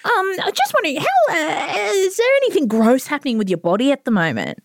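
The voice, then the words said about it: Polite customer service voice. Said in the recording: “customer service voice.”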